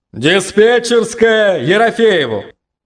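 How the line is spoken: Loud bark over intercom. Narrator (Russian): рявкнул под потолком зонник внутри поселковой связи

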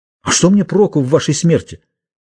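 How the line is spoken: Exclaimed after thinking. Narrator (Russian): Дон Симеон немного подумал и, наконец, воскликнул

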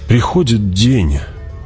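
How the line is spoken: Sighing. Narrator (Russian): вздохнул герцог

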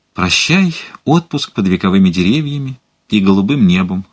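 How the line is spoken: Sigh. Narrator (Russian): вздохнул он

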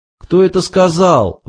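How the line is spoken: Exclaiming. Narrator (Russian): воскликнул Артур

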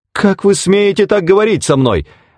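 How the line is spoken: Exclaimed. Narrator (Russian): воскликнула Пэт

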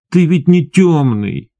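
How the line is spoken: Almost plaintive. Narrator (Russian): почти жалобно сказал он

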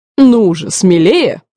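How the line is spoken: Sharp urging shout. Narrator (Russian): прикрикнул он

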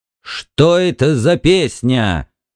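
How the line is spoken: Barked at last, husband. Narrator (Russian): рявкнул в конце концов супруг

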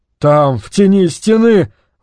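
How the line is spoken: Breathless, dry-mouthed. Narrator (Russian): выдохнул Яр Али, пытаясь языком увлажнить пересохшие губы

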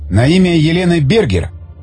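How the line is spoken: Exclaimed. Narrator (Russian): воскликнул Тигран

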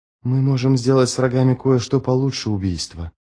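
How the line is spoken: Whispering. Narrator (Russian): прошептал он

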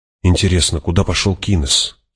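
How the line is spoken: Quiet question. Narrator (Russian): тихо спросила Джессика

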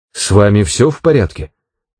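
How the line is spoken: Plain. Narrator (Russian): спросила Джилл

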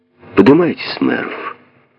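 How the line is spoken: Tired. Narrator (Russian): устало выговорил Бинг

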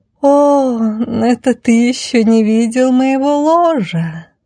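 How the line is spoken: Languid drawl. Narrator (Russian): томно протянула красавица

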